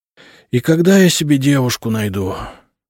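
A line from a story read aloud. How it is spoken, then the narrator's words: Sighing. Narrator (Russian): вздохнул Сева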